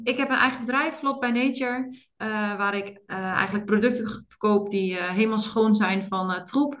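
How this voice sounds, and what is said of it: Slight Twente regional Dutch accent. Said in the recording (Dutch): “Ik woon in Oldenzaal, wat in het Twente ligt. Dus misschien ga je mijn accent een beetje horen.”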